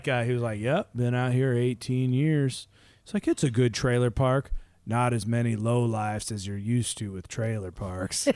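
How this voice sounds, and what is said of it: Slow put-on Southern accent. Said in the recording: “he did talk slow. I know we've been doing the Southern accent for people out there”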